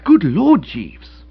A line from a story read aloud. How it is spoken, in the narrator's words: I exclaimed